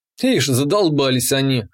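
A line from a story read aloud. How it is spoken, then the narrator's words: Wry snort. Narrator (Russian): хмыкнул я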